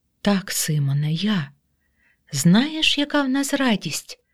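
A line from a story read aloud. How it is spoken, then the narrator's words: Woman's whisper. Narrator (Ukrainian): Жінка зашепотіла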